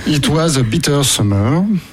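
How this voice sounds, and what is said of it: English spoken with French accent. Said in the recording (French): “avec mon super accent anglais, ça va le super faire. Au moins, les gens me comprennent.”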